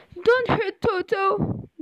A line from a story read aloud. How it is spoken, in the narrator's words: Dorothy cried